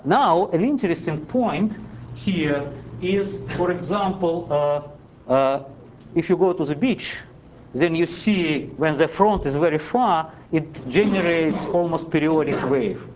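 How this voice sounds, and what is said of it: Siberian Russian accent in English. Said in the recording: “my Siberian accent is always making difficult some terminology”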